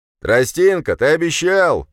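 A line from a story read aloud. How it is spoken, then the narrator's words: Shout from crowd. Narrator (Russian): крикнул чей-то голос из толпы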